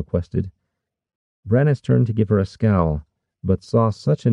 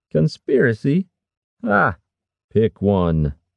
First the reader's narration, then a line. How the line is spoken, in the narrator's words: Harwick scoffed